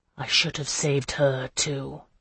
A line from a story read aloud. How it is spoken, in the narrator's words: he replied grimly